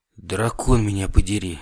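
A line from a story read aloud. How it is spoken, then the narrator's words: Quiet. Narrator (Russian): тихо сказал я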